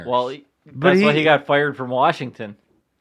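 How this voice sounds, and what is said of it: Sarcastic delivery. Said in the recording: “that was sarcasm. That was bad.”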